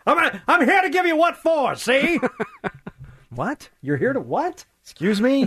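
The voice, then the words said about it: Old-timey heckler voice. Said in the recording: “in your old timey voice ... Old timey heckling.”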